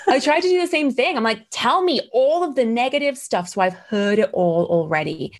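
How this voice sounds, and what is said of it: Mixed British and American accent. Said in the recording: “my accent is a weird ass mix between British and American.”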